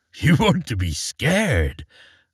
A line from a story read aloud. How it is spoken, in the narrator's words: asked the wagoner, chuckling with surprise